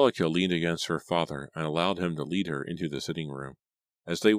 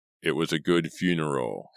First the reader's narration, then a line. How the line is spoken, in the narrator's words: Henry Pierce said, in his gruff rumble of a voice